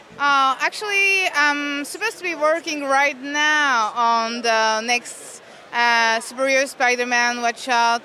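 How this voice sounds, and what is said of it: French accent. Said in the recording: “I heard the voila ... I have a French accent”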